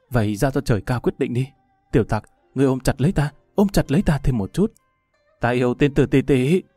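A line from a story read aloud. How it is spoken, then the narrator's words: Tearful nasal murmur. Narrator (Vietnamese): Ninh Vũ Tích lẩm bẩm tự nói, bất chợt nước mắt như mưa, giọng nhỏ như mũi kêu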